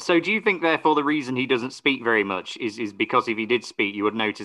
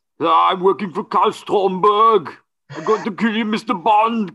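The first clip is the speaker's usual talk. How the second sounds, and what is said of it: Thick put-on Austrian accent. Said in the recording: “a very thick Austrian accent”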